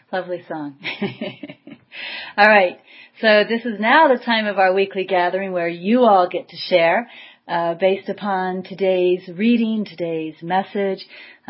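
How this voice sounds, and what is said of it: Out of breath, breathy speech. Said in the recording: “I'm out of breath. I was dancing.”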